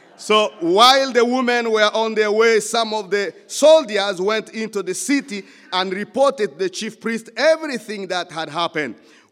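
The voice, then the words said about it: African-accented English. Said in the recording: “it sounds like my African accent. When I say guard, it's as if I'm talking about God”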